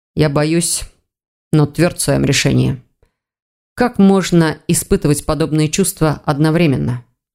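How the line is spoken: Muffled question. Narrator (Russian): глухо спросил Ивар

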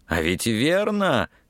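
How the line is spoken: Triumphant exclamation. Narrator (Russian): торжествующе воскликнул он

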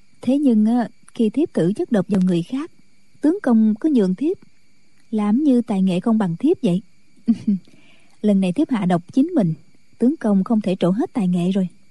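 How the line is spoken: Smiling. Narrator (Vietnamese): Thiếu phụ mỉm cười nói

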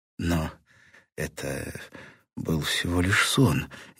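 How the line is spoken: Uncertain objection. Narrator (Russian): неуверенно возразила Сьюзан

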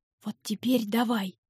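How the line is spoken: Whisper. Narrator (Russian): шепнул Айрон Твинсу

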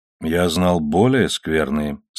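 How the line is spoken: Calm. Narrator (Russian): спокойно сказал сэр Оливер

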